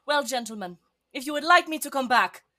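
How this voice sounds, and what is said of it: Put-on accent. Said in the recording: “My accent is completely gone. It'll come back. ... there's the accent.”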